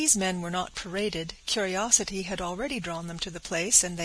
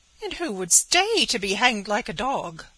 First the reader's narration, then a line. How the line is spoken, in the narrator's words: cried Betty